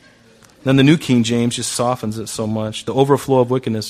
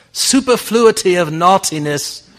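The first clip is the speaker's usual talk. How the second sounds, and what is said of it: Put-on English accent. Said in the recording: “I have to say that with an English accent.”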